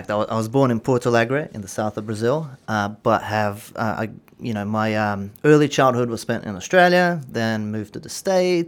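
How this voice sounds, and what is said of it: Mixed, wavering international accent. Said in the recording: “my accent is probably an amalgamation of all ... various ... Different ... influences ... if your accent does waver”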